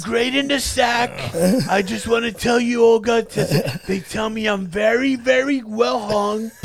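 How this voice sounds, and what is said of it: Imitates another person's voice. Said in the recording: “Doing Donald Trump impressions?”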